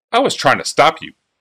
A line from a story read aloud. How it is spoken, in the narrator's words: Urza snapped